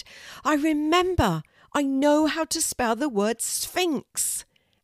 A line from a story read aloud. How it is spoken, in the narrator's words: she suddenly shouted